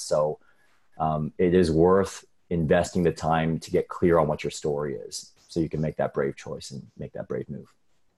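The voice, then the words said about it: Polished radio-announcer voice. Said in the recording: “what a real radio voice should sound like”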